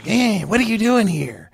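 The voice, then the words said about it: Imitates another person's voice. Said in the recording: “That's the best Clint Howard I've ever heard in my life.”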